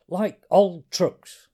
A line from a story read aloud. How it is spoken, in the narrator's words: snapped Arthur